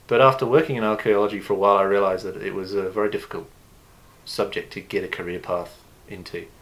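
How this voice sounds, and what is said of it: British accent. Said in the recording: “as you can probably determine from my accent, I'm originally from the UK”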